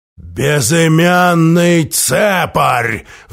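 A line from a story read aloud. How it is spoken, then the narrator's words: Roaring. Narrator (Russian): взревел бедокур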